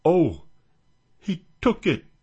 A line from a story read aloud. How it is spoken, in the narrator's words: gasped Stepan